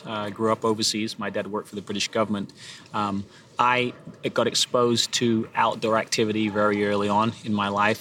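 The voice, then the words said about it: Non-American accent. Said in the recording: “people will know straight away by my accent that I'm not from originally from the States”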